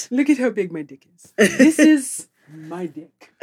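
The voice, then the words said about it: Put-on accent like a movie character. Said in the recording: “that accent, I don't know, for some reason reminded me of Coming to America”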